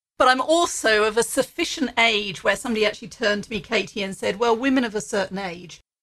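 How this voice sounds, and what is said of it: Strong British English accent. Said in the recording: “you say you could tell from the accent. Yeah, I love it that you still have such a strong accent ... originally from the UK”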